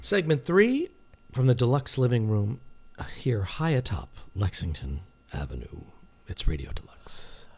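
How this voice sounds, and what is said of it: Polished radio announcer voice. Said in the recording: “You're really getting that radio voice”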